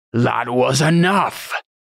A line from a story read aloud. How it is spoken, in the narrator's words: Cantarius bellowed